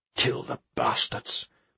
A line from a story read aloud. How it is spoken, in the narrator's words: he muttered to himself